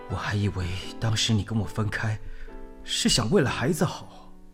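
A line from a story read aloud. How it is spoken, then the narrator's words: Muttering quietly. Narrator (Chinese): 低声念着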